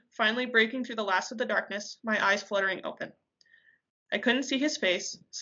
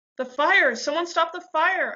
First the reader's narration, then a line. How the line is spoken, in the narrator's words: I screamed as it burned me